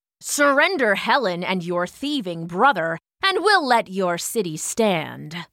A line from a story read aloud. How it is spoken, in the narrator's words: Achilles growled